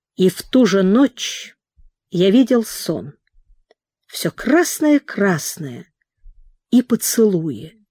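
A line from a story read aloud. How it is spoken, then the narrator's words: Quiet, self-attentive. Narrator (Russian): Прохор говорил тихо, прислушиваясь к своим словам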